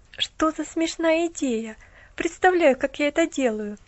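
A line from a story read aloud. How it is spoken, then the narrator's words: Young woman laughing. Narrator (Russian): засмеялась девушка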